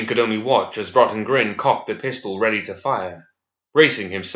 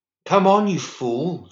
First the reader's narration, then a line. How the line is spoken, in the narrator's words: cried